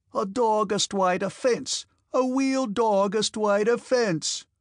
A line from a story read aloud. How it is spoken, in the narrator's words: shouted Denisov